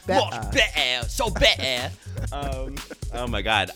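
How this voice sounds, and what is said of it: Put-on British accent. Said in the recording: “on this British accent right now”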